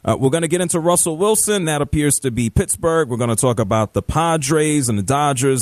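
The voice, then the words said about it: New York accent. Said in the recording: “it all sounded in a New York accent... I happen to be from New York”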